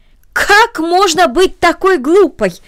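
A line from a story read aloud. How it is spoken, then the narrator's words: Aunt's exclamation. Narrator (Russian): воскликнула тетя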